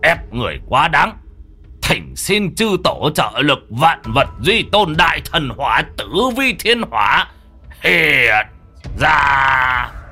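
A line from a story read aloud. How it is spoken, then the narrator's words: Harsh old man. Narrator (Vietnamese): ông cụ Quyết gằn giọng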